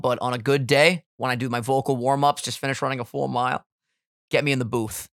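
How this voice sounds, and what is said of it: Groggy, just-woke-up voice. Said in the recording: “I just woke up, so my voice is a little bit compromised right now.”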